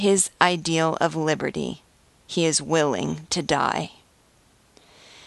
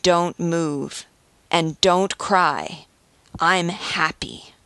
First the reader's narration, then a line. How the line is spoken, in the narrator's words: says, with sincerity and deeply moving conviction